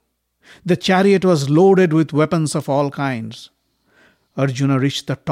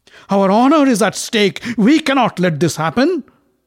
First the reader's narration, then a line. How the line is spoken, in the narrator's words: shouted the others